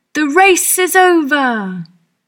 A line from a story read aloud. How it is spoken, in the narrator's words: The dodo shouted